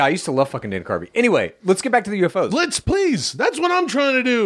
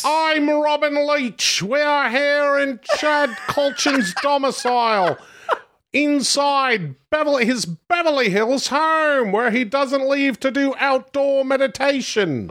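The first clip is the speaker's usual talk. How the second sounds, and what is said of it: Dana Carvey's Robin Leach impression. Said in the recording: “I used to do an impersonation of Dana Carvey impersonating Robin Leach”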